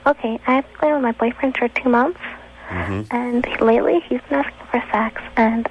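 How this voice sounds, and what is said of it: Young girlish voice. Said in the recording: “You got that little girl voice.”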